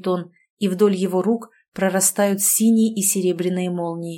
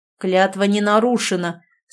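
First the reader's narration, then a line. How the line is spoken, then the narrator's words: Gurgling throaty growl. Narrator (Russian): с клокочущим в горле рычанием отзывается Анатоль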